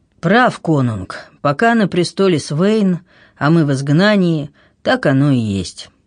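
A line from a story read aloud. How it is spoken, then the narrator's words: Sighing, gloomy. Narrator (Russian): Харальд вздохнул невесело и говорит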